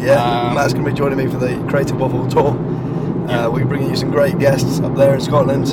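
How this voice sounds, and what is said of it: Strained, nearly lost voice. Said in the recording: “my voice is gone”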